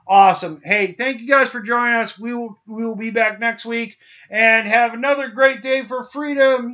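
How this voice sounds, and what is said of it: Imitates another person's voice. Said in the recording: “That was my Kurt Vonnegut impression.”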